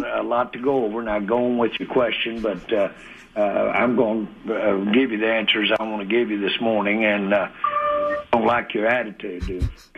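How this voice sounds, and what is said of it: Southern American accent. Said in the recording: “with a southern accent”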